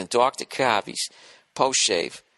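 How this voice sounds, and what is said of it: Weak put-on Boston accent. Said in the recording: “I got to work on my Boston accent.”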